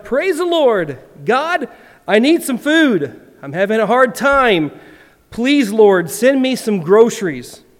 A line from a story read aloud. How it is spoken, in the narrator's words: she … shouted